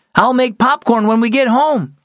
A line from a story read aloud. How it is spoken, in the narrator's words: he yelled over his shoulder